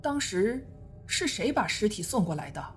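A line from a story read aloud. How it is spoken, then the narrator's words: Frightened old man mumbling. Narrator (Chinese): 老人已经脸色惨白，他半晌才指着尸体喃喃地说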